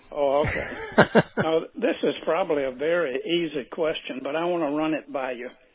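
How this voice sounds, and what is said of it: Southern American accent. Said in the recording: “Must have that southern accent, you reckon?”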